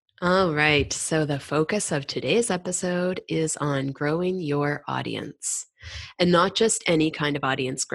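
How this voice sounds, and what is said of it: Voice a little off, sick. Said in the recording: “my voice is a little off today. I am sick with a cold ... My voice is a little off”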